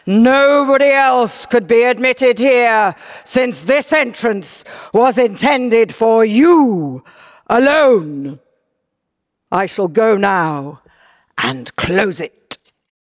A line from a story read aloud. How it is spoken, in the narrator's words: The doorkeeper … in order to reach his diminished hearing, he roars at him